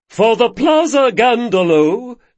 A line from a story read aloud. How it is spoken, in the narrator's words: boomed Sedelkis